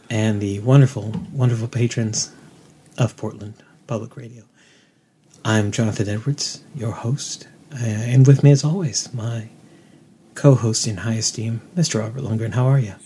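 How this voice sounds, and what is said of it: Mock NPR public radio host voice. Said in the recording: “I've got an excellent NPR voice ... We're going to just pretend we're NPR?”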